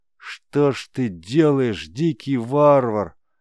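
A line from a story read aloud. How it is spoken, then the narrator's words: Doomed pitying moan. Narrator (Russian): обреченно простонал Дагар, с жалостью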